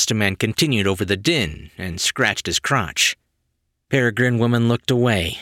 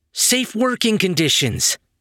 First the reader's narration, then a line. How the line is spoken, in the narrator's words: Flame Boy yelled